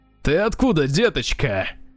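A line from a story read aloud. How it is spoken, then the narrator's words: Rough nasal voice. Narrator (Russian): спросил он грубым гнусавым голосом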